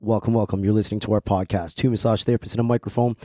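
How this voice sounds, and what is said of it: Strained voice with vocal fry. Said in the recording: “Kind of blew out my voice last week. ... it does sound kind of sexy, though ... A little vocal fry happening by accident.”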